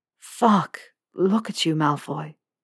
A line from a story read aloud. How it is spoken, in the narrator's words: Potter rasped